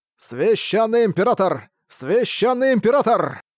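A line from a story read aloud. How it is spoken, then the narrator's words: Crowd shouting loudly. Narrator (Russian): Кричали многие голоса, и звездное пространство вокруг потонуло в этих криках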